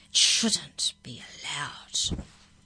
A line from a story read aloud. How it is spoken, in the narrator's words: Krista hissed with emphasis